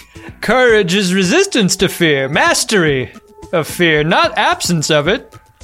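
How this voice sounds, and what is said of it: Bad Mark Twain impression. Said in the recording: “your nightmarishly bad Mark Twain impression”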